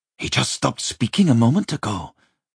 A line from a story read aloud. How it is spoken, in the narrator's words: whispered, a young boy, with nervousness